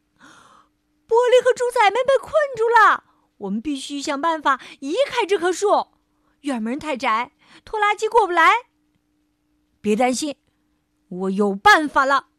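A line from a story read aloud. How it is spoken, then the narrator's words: Loud shout. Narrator (Chinese): 弗瑞德大喊一声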